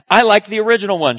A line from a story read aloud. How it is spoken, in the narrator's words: she says